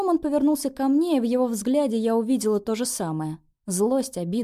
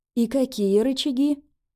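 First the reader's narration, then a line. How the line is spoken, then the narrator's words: Forced calm. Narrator (Russian): Я старалась говорить спокойно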